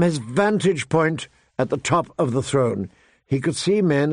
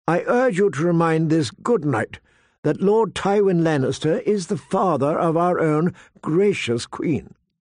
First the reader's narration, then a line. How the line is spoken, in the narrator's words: Pycelle declared in a stiff voice